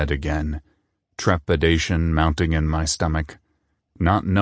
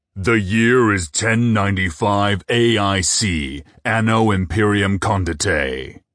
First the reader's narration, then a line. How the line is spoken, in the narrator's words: the disembodied announcer bellowed over the music